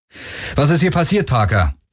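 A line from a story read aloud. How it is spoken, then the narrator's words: Calling out. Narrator (German): rief Garland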